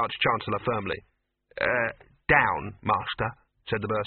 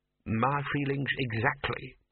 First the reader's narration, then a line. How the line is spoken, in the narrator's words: purred the bursar